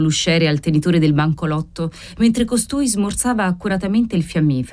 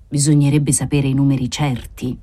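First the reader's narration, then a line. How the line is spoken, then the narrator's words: Usher's murmur. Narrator (Italian): mormorò l'usciere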